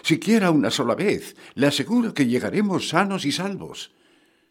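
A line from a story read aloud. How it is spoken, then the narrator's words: Pleading. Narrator (Spanish): le suplico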